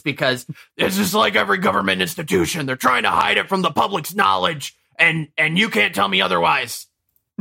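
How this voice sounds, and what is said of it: Imitates another person's voice. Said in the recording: “my Alex Jones impression”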